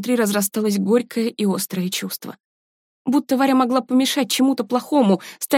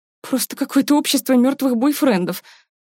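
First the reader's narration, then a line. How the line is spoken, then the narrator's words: Nervous giggle. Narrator (Russian): Сара нервно хихикнула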